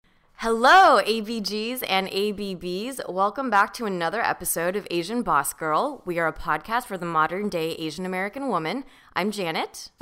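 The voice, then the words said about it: Hoarse, worn-out voice. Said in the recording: “I might sound like my voice is a little bit shot”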